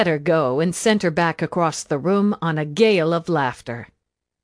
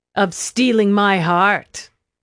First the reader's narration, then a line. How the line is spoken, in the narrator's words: he sneered